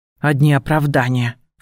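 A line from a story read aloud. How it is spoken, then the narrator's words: Snorting. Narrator (Russian): фыркнула я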